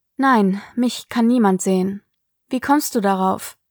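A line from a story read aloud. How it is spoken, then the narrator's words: Plain question. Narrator (German): fragte Sig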